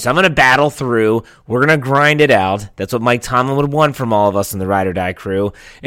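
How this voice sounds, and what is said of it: Hoarse voice from a cold. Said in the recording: “what is wrong with this sound? doesn't sound normal... It's my voice. I have a little bit of a cold... you can lose your voice”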